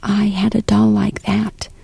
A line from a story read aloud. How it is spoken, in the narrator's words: Grandmother whispered